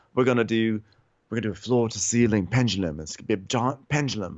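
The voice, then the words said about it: Put-on British accent. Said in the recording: “I don't even remember if he has a British accent, but I'm gonna give him one.”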